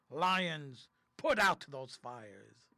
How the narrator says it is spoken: Such a terrible roar those lions roared that the whole earth shook

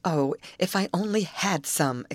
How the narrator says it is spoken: exclaimed Molly

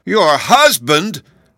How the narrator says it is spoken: the Tin Twins exclaimed in dismay

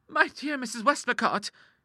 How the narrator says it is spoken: cried Clara

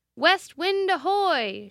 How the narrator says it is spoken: shouted someone from the stern of the steamer

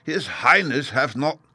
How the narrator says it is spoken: began, but was sharply stopped

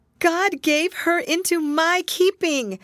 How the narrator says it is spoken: repeated Hester Prynne, raising her voice almost to a shriek

